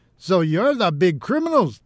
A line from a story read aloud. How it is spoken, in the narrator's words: they called out